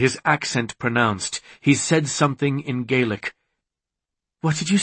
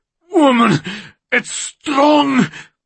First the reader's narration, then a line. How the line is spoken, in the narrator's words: he bellowed in disbelief